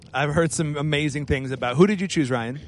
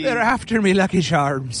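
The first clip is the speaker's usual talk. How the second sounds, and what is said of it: Put-on Irish accent. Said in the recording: “say it in a cool Irish accent”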